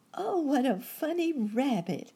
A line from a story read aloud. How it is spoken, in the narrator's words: exclaimed the girl, smiling through her tears